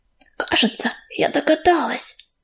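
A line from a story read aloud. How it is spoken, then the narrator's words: Hissing into ear. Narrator (Russian): зашипела Белочка на ухо ежевики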